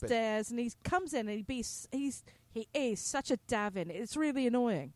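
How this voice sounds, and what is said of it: Put-on posh British accent. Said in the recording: “British accent ... Maybe the accent makes everything sound better ... posh”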